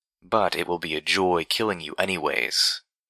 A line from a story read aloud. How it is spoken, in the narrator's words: the third almost purred